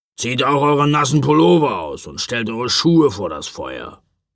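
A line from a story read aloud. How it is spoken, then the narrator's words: Grumbling. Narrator (German): brummte er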